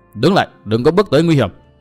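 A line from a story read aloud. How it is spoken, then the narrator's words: Loud shout. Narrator (Vietnamese): có tiếng quát lớn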